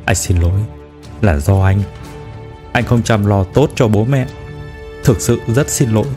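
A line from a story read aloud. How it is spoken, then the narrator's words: Low choked voice. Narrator (Vietnamese): Trương Đông Thăng hạ giọng nghẹn ngào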